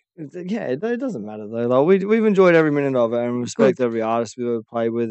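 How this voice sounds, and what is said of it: New Zealand accent, not fully Australian. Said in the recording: “I am from New Zealand ... I don't talk with a full Aussie accent”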